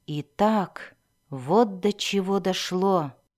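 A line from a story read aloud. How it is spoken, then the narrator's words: Muttered to himself. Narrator (Russian): пробормотал он про себя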